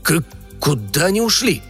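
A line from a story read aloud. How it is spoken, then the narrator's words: Stammering mutter. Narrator (Russian): запинаясь, пробормотал полковник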